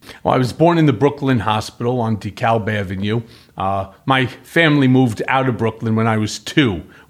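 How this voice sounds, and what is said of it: Brooklyn accent. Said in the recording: “You have more of a Brooklyn accent”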